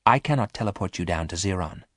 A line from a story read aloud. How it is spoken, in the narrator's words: said Omega quietly